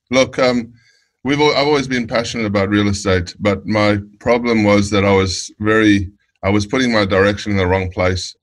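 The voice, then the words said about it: South African accent. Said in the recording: “you're from South Africa. I can tell by your accent.”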